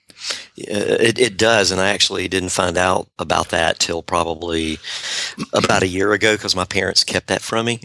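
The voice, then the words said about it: Southern American accent. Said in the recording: “the first marketing book author with a Southern accent”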